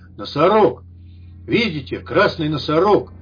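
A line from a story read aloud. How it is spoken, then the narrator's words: Loud bark. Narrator (Russian): рентген как гаркнет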